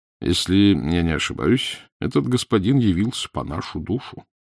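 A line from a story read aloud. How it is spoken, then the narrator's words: Calm. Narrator (Russian): спокойно молвил Данила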